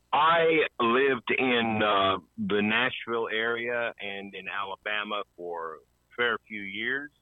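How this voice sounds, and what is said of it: Southern American accent. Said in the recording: “you can tell by my accent that I still carry that with me. I've been in Australia for 20 years now, but I just can't shake the accent.”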